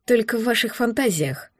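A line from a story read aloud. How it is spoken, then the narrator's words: Mutter under breath. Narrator (Russian): пробормотала я себе под нос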